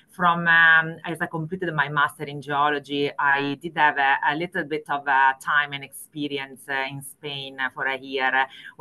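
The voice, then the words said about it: Italian-accented English. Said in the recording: “As you pick from my accent, I'm definitely not English speaker. That's not my natural language. I'm born and raised in Italy”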